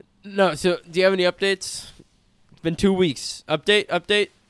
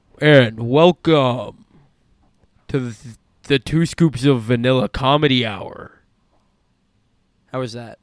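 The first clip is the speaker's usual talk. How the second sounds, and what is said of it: Put-on radio announcer voice. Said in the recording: “It's my radio voice.”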